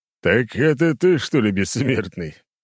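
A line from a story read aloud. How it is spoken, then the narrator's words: Hmph. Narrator (Russian): Суворов хмыкнул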